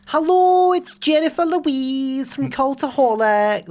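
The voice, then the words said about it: Glasgow accent impression. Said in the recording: “Do the voice. You're actually really good at voices ... They've got similar accents. They're both from Glasgow.”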